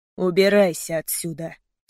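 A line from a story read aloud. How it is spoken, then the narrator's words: Through gritted teeth. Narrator (Russian): сквозь зубы сказал ему Мейсон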